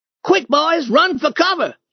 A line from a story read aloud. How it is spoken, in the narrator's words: shouted